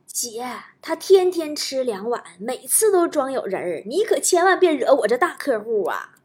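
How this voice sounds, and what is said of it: Quiet, hushed voice. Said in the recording (Chinese): “小声跟我说”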